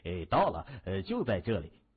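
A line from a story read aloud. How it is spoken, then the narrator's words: Cheerful laughing man. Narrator (Chinese): 那个白人汉子笑呵呵的说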